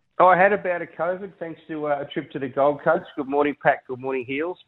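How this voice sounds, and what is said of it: Congested voice with a cold. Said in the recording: “I've just got a bit of a lingering cold, as you can tell from my voice.”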